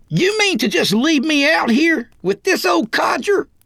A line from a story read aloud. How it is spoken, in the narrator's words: Roy yelled like a stuck pig